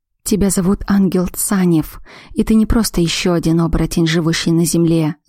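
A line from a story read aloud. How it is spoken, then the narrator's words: Whisper. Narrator (Russian): зашептал Есения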